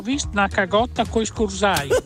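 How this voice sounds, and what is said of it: Speaks in Emilian dialect. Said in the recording (Italian): “dai ancora qualche vocalino in dialetto ... Saluti dall'Emilia.”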